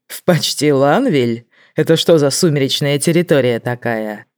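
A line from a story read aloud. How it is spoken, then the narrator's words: Laughing. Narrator (Russian): Лайза не выдержала и рассмеялась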